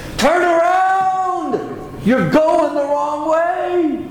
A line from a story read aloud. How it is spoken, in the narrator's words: Paul is screaming at the Galatians